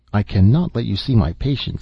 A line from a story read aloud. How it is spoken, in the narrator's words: said